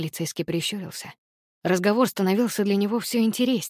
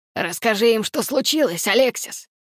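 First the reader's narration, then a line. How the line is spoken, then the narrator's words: Roaring from outside. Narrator (Russian): проревел отец с улицы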